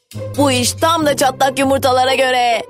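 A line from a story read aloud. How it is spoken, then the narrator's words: Group shouting. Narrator (Turkish): diye bağırdılar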